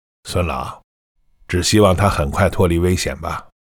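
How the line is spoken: Sighing, low voice. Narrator (Chinese): 内科主任叹了口气，又摇着头低声说

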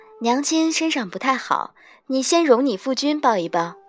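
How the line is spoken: Gentle, loving. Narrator (Chinese): 我甚慈爱 柔声道

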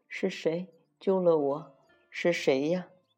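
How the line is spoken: Weak, dazed question. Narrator (Chinese): 荷香吐出喝下的池水，慢慢睁开眼睛问

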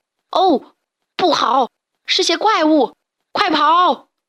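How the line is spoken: Shocked group shouting. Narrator (Chinese): 他们一看到那些怪物的脚印，大吃一惊，一起大声喊

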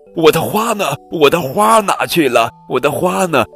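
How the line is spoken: Loud clamoring. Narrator (Chinese): 邻居们大声地吵着

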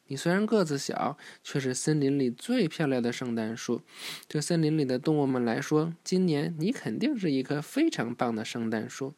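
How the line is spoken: Cheerful, chuckling. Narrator (Chinese): 圣诞老人笑呵呵地对小树说

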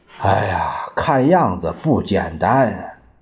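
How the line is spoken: Sighing. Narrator (Chinese): 邓演达叹息着说

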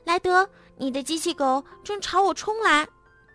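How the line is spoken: Calling over helmet radio. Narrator (Chinese): 天天通过头盔对讲机呼叫莱德

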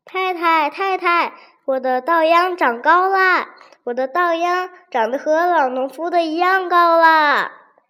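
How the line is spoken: Happy shouting while running. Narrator (Chinese): 王吉一路跑回家，快乐地嚷着

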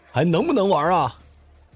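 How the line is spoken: Shouting together. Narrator (Chinese): 我们一起跟着吼

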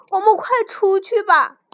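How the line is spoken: Shouting. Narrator (Chinese): 弗洛格大叫

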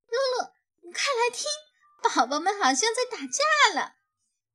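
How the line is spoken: Laughing. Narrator (Chinese): 他笑着说

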